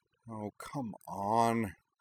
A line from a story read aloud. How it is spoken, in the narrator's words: Kaname muttered